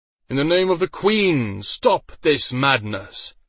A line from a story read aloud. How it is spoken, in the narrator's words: an ungodly voice boomed out